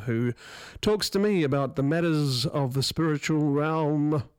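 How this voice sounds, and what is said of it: Spooky ghostly voice. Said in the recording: “why I did that in ghostly voice.”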